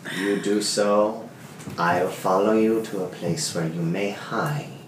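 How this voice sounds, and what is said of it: Sleazy-sounding put-on character accent. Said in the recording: “change up your accent. You sound like a sleazeball ... you just sound like you're just gonna kill us in our sleep”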